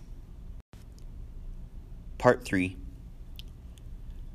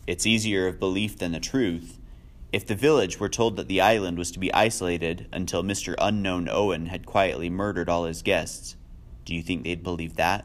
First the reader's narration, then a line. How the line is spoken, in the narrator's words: Lombard said dryly